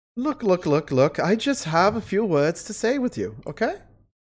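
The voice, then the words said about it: Character voice with put-on accent. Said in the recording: “The accent should have given it away.”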